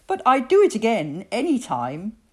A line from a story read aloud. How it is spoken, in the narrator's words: spluttered